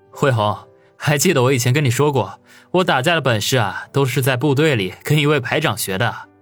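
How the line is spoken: Chuckling. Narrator (Chinese): 王宇呵呵一笑

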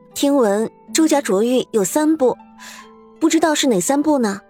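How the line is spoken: Plain. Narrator (Chinese): 周素说道

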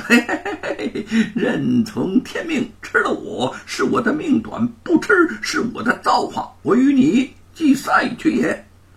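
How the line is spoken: Laughing. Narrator (Chinese): 行者笑道

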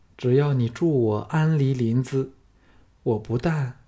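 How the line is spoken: Calm, detached. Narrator (Chinese): 凤飞淡淡的说

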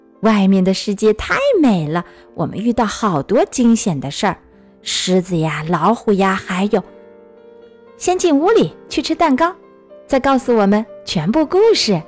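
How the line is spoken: Loud. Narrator (Chinese): 弗洛格大声说

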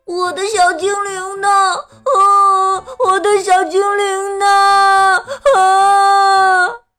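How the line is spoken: Crying and shouting. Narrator (Chinese): 他边哭边喊

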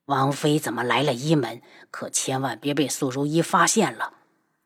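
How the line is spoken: Hushed, lowered voice. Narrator (Chinese): 三长老压低了声音

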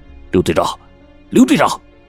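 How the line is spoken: Urgent agitated shout. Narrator (Chinese): 邓志勇心中悸动，便急忙喊道

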